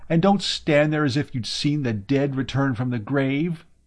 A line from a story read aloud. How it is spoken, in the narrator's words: she cried